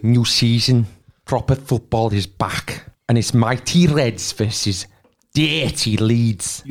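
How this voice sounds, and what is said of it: Put-on Scouse accent. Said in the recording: “You look really aggressive when you're doing scouse.”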